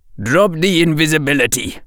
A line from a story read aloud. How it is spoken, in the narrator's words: growled Bari